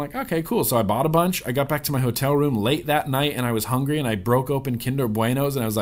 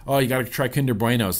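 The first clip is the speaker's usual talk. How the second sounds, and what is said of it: Put-on Irish accent, self-described as bad. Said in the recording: “That's my Irish accent. It's dumb, right? Okay, it's dumb.”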